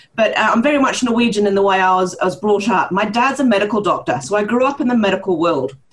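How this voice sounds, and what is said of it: Mixed New Zealand and Norwegian accent. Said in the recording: “my strange accent comes from, uh, part, partly New Zealander and partly Norwegian”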